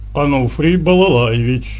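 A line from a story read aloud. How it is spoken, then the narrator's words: Forced low bass voice. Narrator (Russian): низким, насколько было возможно, голосом пробасил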